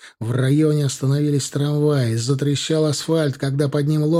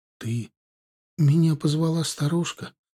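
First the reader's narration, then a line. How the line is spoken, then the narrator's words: Whisper. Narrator (Russian): прошептала она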